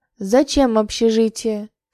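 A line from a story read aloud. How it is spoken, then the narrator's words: Stern question. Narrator (Russian): строго спросил Марк Петрович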